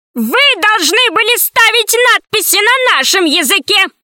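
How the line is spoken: Old man shouting. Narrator (Russian): закричал старичок

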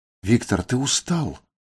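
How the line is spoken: Gentle. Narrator (Russian): мягко сказал Отель

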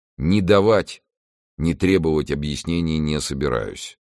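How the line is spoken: Gloomy. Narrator (Russian): произнес он мрачно

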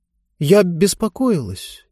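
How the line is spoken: Barely audible reply. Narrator (Russian): едва слышно ответила, наконец, Диба

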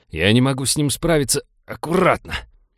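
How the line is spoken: Growling. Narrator (Russian): прорычал Винни

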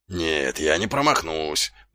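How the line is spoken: Muttering. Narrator (Russian): бормотал Колон

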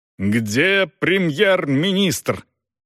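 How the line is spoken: Menacing thundering question. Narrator (Russian): спрашивал он грозным, гремящим голосом, совсем не таким, каким обычно разговаривал во время приемов и аудиенций

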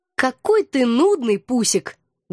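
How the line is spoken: Sad sigh. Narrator (Russian): грустно вздохнула я

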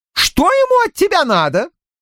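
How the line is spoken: Stronger voice, shrill notes. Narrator (Russian): В ее окрепшем голосе появились визгливые нотки

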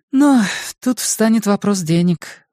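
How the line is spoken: Sighing. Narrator (Russian): вздохнула Линь Юнь

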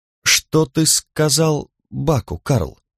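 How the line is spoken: Plain. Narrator (Russian): спросила Лиза

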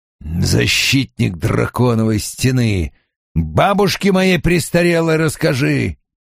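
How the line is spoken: Disgusted grumble. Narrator (Russian): брезгливо буркнул Доман

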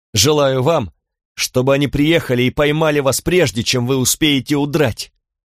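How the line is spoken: Shouting. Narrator (Russian): крикнула она

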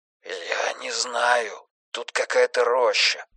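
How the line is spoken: Whispered. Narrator (Russian): прошептал он

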